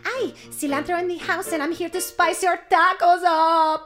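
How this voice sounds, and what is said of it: Put-on Spanish accent. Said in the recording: “cilantro is like the Spanish spice ... Can we do accents without getting in trouble anymore?”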